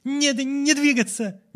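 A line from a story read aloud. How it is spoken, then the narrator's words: Hesitant shout. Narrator (Russian): неуверенно крикнула она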